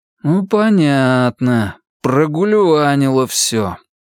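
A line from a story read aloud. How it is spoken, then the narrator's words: Drawl. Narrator (Russian): протянул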